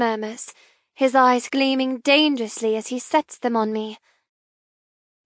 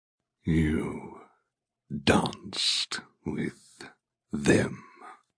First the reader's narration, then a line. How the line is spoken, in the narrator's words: he says through gritted teeth, tension radiating from him